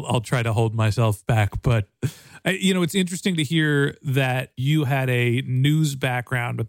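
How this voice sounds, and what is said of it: Usual voice. Nothing is said of it.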